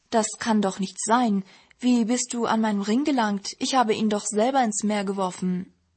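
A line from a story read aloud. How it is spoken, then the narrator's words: Man calling out. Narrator (German): Er rief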